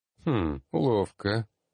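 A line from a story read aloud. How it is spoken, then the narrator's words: Someone snorting. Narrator (Russian): хмыкнул кто-то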